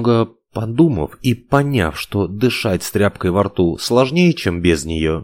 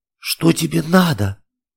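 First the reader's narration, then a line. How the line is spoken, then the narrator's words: Unusually husky voice. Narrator (Russian): Голос оказался непривычно сиплым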